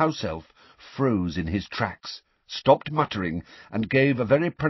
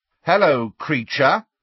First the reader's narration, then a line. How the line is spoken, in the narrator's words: said Fred very loudly